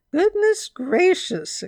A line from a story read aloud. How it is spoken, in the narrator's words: exclaimed Mrs